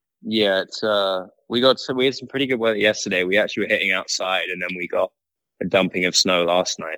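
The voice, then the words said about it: Slight British accent. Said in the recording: “there is a slight accent, and it's not from Minnesota ... you're definitely from the UK”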